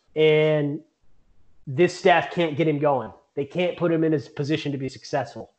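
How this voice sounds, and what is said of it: Fired-up, heated speaking voice. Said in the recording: “this is as fired up as I get. I'm sure everybody can hear it in my voice.”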